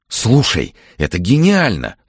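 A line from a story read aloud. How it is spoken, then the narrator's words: Excited. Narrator (Russian): взволнованно заговорил Андрей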